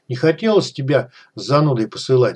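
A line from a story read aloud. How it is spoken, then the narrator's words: Plain. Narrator (Russian): сказал Голованов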